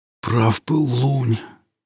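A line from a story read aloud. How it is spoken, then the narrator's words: Quiet hoarse exhausted rasp. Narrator (Russian): тихо прохрипел осунувшийся после вчерашней встречи с Иллюзом ересь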